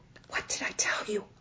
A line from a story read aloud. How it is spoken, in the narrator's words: Amal whispered to his mother